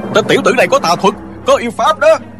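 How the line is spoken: Clamoring frightened angry monks. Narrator (Vietnamese): Cả đám hòa thượng vừa sợ vừa tức, nhao nhao hò hét

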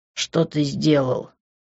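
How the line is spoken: Angry, through teeth. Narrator (Russian): Зло процедил я

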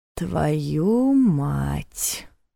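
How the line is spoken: Muttered. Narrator (Russian): пробормотал Ваня

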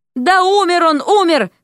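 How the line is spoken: Young man shouting. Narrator (Russian): крикнул парень

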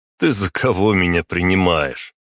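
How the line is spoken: Short laugh. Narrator (Russian): хохотнул я

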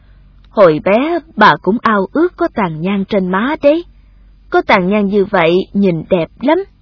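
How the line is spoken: Gentle old woman. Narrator (Vietnamese): Bà dịu dàng bảo

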